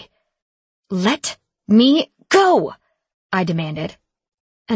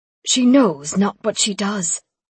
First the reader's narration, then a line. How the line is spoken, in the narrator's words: Raphael whispered to Lincoln